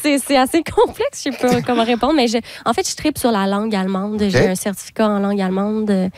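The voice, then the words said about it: Québécois French accent. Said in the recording (French): “êtes-vous des petits Québécois? ... c'est sûr que votre accent le dit”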